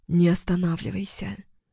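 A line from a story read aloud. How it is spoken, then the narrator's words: Hoarse whisper. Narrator (Russian): прошептала хрипло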